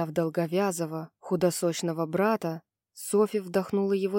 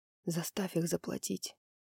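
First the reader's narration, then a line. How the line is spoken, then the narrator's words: Whisper. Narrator (Russian): прошептал он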